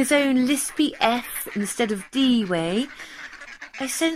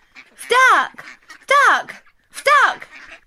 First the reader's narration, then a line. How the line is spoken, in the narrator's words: Raffy shouting